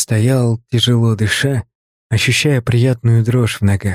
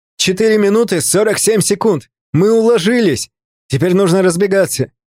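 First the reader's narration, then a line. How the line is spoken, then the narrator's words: Shout. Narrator (Russian): Артемий крикнул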